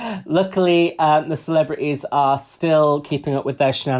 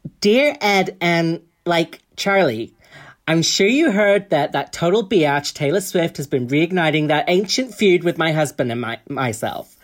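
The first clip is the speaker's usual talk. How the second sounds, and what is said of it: Put-on American accent. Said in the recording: “I'll try and do my American accent.”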